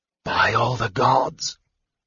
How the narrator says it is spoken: Raistlin breathed

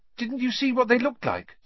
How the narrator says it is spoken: said Hermione eagerly

